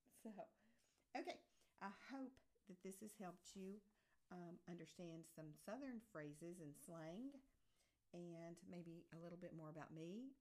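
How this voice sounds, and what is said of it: Strong Southern American accent. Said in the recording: “I'm afraid my Southern accent may have come out a little stronger in that.”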